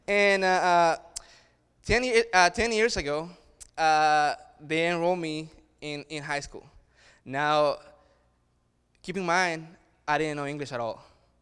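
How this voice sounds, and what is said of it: Strong, thick accent. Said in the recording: “I grew up back in El Salvador ... I have a beautiful, strong, super thick accent ... I have grown to love my accent.”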